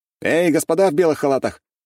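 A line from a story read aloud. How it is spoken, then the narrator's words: Loud shout. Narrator (Russian): громко крикнул я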